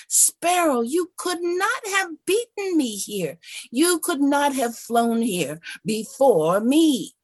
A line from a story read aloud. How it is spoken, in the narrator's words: Eagle screech in rage